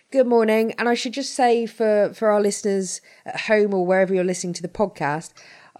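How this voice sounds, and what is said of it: Croaky, slightly hoarse voice. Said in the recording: “my voice may sound a bit croaky this morning. I'm battling a bit of a hay fever fit ... any inadvertently poor noises ... coughs and splutters”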